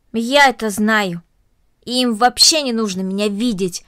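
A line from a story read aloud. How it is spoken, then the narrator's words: Said angrily. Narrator (Russian): сердито произнесла Корнелли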